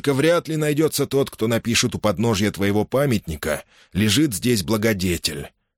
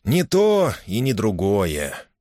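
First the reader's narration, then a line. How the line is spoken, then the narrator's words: Sad sigh. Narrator (Russian): печально вздохнул мистер Кэмпион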